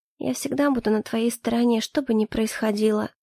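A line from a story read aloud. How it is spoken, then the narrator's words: Quiet. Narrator (Russian): сказала я негромко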